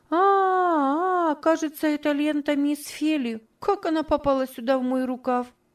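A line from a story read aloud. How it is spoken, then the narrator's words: Exclaimed. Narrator (Russian): воскликнула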